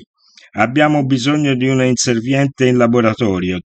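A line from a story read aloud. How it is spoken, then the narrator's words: Plain. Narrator (Italian): disse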